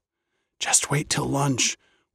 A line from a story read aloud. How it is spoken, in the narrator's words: whispered another